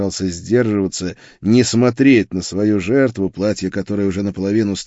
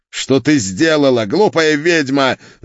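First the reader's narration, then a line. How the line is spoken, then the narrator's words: Furious spitting yell. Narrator (Russian): заорал он, брызгая слюной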